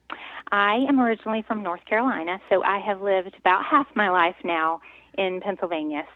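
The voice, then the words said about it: Slight southern American twang. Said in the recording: “you have a little bit of a southern twang.”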